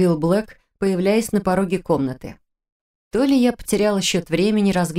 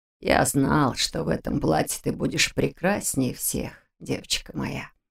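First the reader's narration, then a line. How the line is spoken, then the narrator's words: Tender mumble. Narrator (Russian): пробормотал он, уже видя во мне свою погибшую дочь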